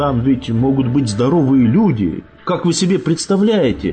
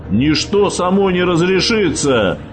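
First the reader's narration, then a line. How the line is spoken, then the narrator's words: Roar. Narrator (Russian): взревел Хантер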